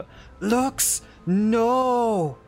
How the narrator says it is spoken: shouts out

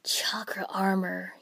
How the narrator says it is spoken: wheezed

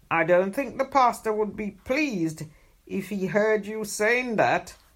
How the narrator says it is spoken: Grandpa chuckled

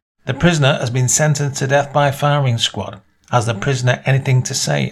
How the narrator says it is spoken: asked the general

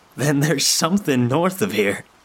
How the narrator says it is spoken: he said, laughing

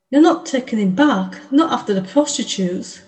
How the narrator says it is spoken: she exclaimed

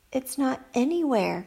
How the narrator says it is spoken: cried Annie

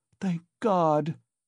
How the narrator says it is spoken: cried Pulcheria Alexandrovna

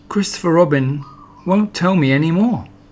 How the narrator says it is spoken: he said sadly to himself

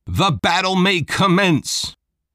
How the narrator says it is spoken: Novak shouted

